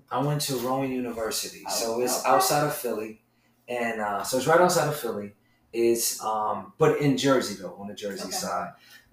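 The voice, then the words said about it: Northeastern US (South Jersey) accent. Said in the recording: “I definitely heard the accent. It's very much given Northeast.”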